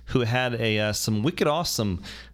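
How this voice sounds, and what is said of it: Bad put-on Boston accent. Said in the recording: “that's a terrible Boston accent”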